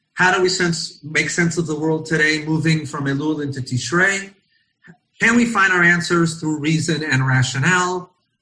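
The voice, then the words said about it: American accent. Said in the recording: “my American accent coming from Israel”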